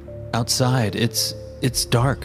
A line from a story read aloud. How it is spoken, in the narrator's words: I stuttered